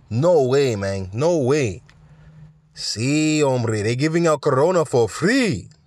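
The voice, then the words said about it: Put-on Mexican accent, not very good. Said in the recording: “I don't have as good of a Mexican accent”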